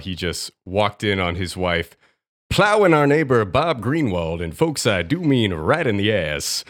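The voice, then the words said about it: Sports announcer voice. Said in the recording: “he is talking in his announcer voice ... my Jim Brockmire impression.”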